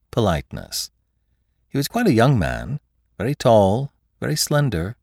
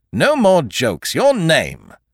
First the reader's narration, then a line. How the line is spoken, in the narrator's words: Monsieur Filleul said sharply